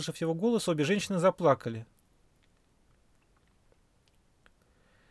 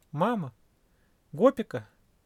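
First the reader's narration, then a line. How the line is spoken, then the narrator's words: Exclaimed. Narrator (Russian): воскликнул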